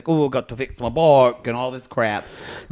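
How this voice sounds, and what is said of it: Bad put-on South African accent. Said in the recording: “that's a really bad South African accent... That's Scottish... South African.”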